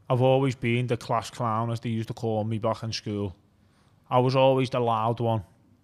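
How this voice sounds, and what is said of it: Thick Liverpool accent. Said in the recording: “quite a thick Liverpool accent”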